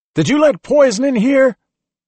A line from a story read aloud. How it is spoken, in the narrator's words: someone yelled from the back